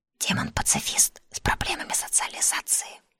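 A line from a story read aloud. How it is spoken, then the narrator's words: Whispered in the ear. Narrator (Russian): шепнул Милецкий на ухо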